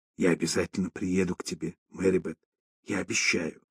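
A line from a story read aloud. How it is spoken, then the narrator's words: Whispered, mother. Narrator (Russian): шепнула мать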